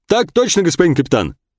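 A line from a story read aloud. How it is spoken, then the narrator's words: Barked. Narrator (Russian): гаркнул гвардеец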